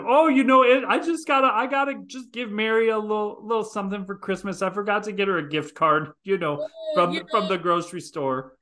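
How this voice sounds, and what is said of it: Small-town accent imitating someone's mother. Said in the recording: “I just put on my accent to sound like your mother”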